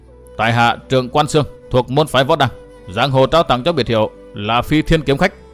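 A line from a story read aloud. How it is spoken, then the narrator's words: Harsh gruff voice. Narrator (Vietnamese): Người vận áo tím liềm gắt gằn giọng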